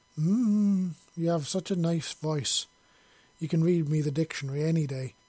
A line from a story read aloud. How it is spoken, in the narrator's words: Grace slurred, her head all muggy and fluffy like it was filled with clouds or cotton wool